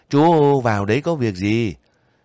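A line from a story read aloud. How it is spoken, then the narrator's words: Smiling woman. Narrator (Vietnamese): Người đàn bà mủm mỉm cười hỏi lại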